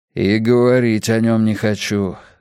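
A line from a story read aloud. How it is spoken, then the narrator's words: Grumbling. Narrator (Russian): буркнул Рейдер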